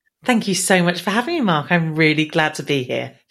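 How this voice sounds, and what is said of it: English accent. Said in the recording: “Thank you for having a proper English accent. ... you have a proper accent ... I should hopefully sound as English as they come.”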